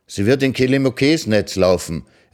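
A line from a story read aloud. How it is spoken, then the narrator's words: Delighted call. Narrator (German): rief sie erfreut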